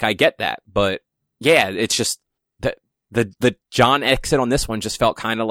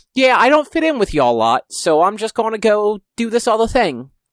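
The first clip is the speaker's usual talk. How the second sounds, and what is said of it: Bad put-on British accent. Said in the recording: “That's a really bad British accent. ... it was a terrible one, especially when you're trying to be John Constantine.”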